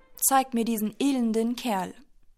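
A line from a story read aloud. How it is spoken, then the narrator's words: Angry lion roaring. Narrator (German): Der hungrige Löwe war aufgebracht und brüllte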